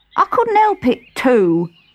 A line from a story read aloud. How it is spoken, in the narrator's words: said Five sulkily